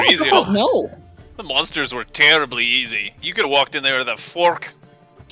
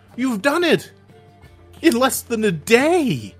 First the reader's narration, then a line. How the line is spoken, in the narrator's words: exclaims in excitement